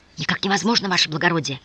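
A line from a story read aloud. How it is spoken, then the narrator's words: Old man hissing. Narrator (Russian): зашипел старик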